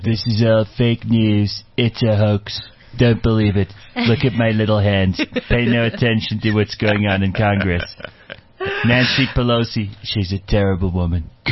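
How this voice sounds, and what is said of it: Donald Trump impression. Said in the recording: “you have to say it with a Trump accent ... your Trump accent”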